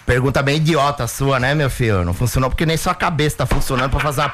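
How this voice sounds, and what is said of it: Imitates another person's voice. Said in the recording (Portuguese): “quando eu faço o Muricy ... ele pede o Muricy”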